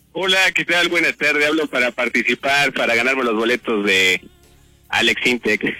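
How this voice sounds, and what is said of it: Radio announcer-like voice. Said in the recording (Spanish): “Tiene voz de locutor ... Tiene voz de locutor ... con tu voz de locutor”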